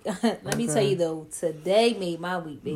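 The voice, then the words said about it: Put-on New Orleans accent. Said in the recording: “that's my New Orleans accent”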